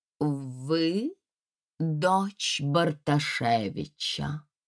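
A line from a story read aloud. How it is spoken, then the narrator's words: Artificial, slow, haughty question. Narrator (Russian): Ненатуральным тоном, медленно и надменно, девушка спросила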